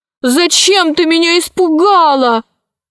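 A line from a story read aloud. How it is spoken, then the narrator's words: Shouting at someone. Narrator (Russian): закричала на нее наследница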